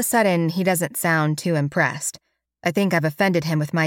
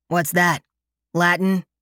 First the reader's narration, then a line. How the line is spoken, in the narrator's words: he grunts